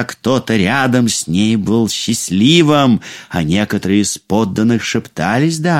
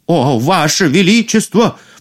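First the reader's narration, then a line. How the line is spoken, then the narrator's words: Sharp cry. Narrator (Russian): вскрикнул повар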